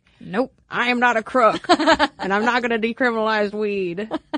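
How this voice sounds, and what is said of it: Richard Nixon impression. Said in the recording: “that was my Nixon impression.”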